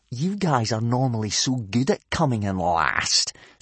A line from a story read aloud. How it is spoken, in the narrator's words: sneered Snotlout